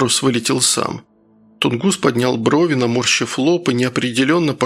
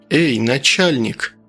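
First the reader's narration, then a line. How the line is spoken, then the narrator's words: Surprisingly calm while drowning. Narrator (Russian): На удивление спокойно для тонущего человека обратился он к Рощину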